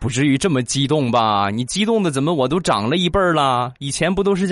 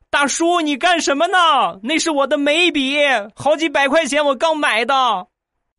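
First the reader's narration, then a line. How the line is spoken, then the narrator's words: Girl shouting angrily. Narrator (Chinese): 那个小姑娘 冲我大声的咆哮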